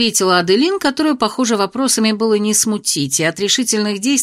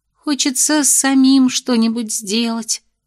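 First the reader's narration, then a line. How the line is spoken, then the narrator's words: Dreamy sigh. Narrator (Russian): романтично вздохнула Эль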